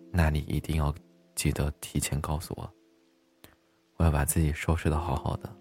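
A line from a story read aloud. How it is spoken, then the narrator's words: Gentle, tender. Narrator (Chinese): 一脸温柔的对我说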